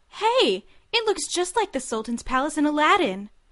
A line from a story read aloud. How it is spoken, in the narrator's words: replied before her eyes widened and she exclaimed